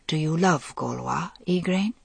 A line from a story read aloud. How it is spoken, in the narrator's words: said, her voice very soft